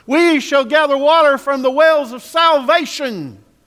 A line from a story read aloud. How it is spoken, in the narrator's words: They were shouting even louder